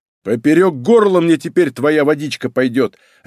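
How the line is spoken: Barked. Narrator (Russian): рявкнул Малинин

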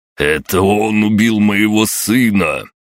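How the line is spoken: Roaring. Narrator (Russian): в очередной раз взревел Чурпасов

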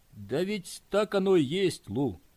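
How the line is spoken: Sad. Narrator (Russian): печально произнес он

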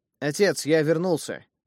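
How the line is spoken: Loud announcement. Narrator (Russian): громко объявил я, не ожидая услышать никакого ответа

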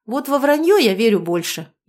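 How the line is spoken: Snorting. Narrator (Russian): Егор хмыкнул

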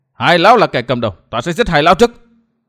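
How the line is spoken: Shout. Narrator (Vietnamese): chẳng hét

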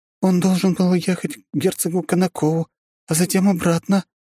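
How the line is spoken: Trembling voice. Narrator (Russian): дрожащим голосом произнесла она

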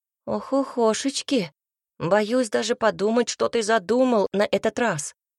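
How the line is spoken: Sighing. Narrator (Russian): вздохнул Цинта

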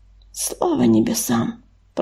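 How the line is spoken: Whisper. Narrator (Russian): прошептала Саша

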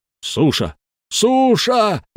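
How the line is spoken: Frenzied yelling. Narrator (Russian): исступленно орал седьмой

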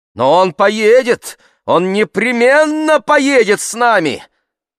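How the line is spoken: Woman shouting. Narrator (Russian): закричала красавица

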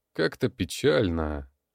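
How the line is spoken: Sigh. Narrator (Russian): вздохнул Сергей

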